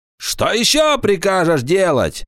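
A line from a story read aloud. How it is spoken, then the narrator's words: Angry shout. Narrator (Russian): сердито закричал Паламброн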